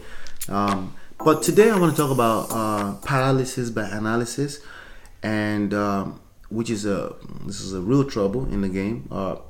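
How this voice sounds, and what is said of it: Slightly funny voice from cold. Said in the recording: “If I talk a little funny, I have a little cold”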